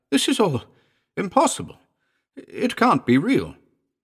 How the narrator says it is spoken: I cried

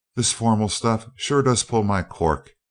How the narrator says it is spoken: exclaimed Seaton to Dunark

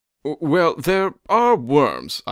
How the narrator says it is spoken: I stammered

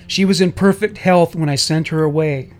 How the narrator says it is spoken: Distraught and unable to restrain herself, she cried out

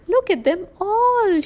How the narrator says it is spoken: she shouts

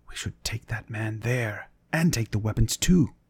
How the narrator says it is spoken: Torvi Valbrandsson whispers

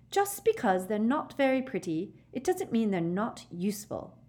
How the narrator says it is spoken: Hermione snapped

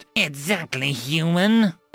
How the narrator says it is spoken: DeGrad snarled

